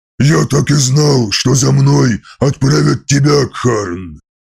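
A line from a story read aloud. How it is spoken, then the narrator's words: Booming voice from above. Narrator (Russian): прогремел голос с вершины костяной горы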